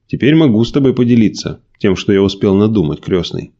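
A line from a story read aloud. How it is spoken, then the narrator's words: Plain. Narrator (Russian): ответил Николай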